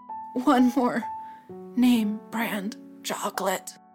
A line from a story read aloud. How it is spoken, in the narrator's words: he whispered